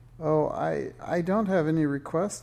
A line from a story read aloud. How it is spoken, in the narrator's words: stammered Minx